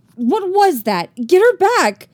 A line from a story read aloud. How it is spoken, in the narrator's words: she shouted